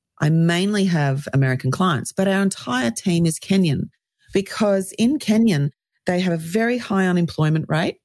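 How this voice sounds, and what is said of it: Australian accent. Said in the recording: “as you can tell by my accent, I'm Australian.”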